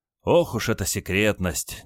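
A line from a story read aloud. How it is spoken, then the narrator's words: Feigned sigh. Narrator (Russian): делано вздохнул генерал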